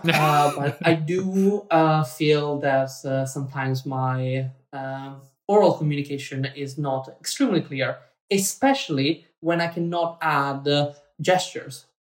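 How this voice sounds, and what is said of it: Italian accent. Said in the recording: “I'm Italian... So I have an accent... A beautiful accent.”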